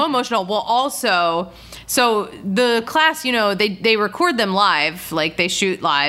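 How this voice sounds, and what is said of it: Usual voice. Nothing is said of it.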